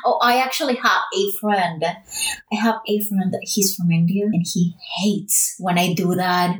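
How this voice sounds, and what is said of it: Hispanic accent with British-leaning English. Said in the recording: “It's like three accents at the same time. It's a Latin, a Spanish speaking person speaking American English that tries to imitate British English ... I would still have my Hispanic accent”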